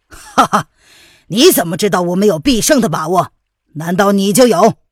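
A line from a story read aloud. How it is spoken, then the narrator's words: Furious laugh. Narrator (Chinese): 范定峰怒极反笑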